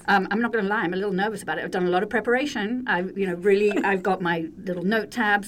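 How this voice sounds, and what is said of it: British accent. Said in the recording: “she is British ... Everyone will enjoy her accent”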